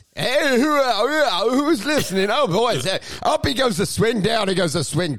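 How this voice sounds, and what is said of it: Upbeat radio announcer voice. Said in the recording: “he would go in and out of radio voice ... commentary voice”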